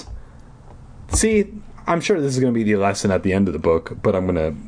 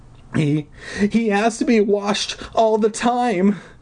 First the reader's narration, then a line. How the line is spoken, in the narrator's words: Deirdre exclaimed with a sob